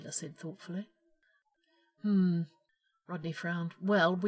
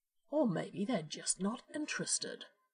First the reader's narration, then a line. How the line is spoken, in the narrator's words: John said brightly